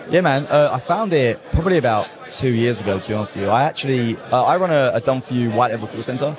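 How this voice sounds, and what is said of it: Clear British accent. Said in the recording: “I'm from England ... I have a very clear British accent”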